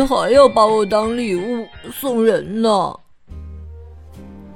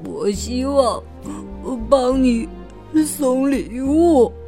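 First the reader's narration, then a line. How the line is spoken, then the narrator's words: Choked-up, tearful. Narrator (Chinese): 狼哽咽着说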